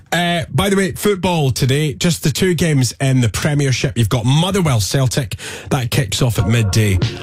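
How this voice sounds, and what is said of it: Slightly hoarse voice. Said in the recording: “You don't sound too bad now ... my voice was... Well, you can still hear it. ... It's a bit hoarse.”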